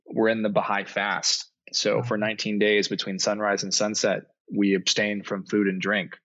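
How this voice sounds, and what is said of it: Hoarse voice. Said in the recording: “my voice is, I'm a little hoarse ... So my voice is a little hoarse at the moment.”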